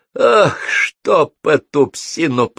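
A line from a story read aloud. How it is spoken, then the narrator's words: Hoarse wheeze. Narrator (Russian): прохрипел он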